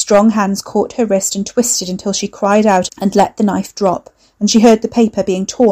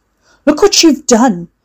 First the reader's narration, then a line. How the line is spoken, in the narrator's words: Hugo shouted